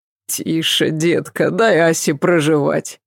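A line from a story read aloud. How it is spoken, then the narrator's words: Laughing. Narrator (Russian): смеясь, сказал Адам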